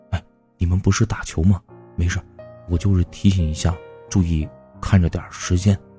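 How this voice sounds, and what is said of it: Low, cautious hushed voice. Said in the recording (Chinese): “用略带谨慎的口气低声说”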